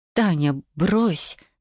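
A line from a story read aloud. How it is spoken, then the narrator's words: Trembling voice. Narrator (Russian): дрожащим голосом произнесла Даша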